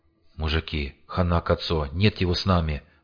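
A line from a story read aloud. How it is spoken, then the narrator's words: Hoarse rasp. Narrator (Russian): прохрипел он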